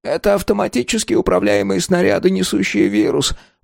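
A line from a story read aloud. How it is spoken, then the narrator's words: Moaning. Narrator (Russian): простонал Шект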